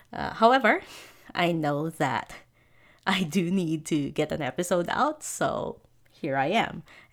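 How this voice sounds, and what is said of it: Stuffy, congested voice. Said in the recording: “caught a bit of a cold ... hear from my voice a little bit of that, a bit of a, I'd say, stuffy kind of quality to the voice”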